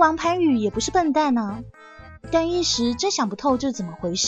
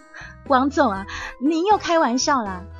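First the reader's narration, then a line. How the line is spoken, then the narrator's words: Forced cheerful flattery. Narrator (Chinese): 幸福堆满笑容说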